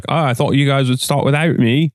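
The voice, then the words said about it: Imitates another person's voice. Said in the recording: “That's a really good impression.”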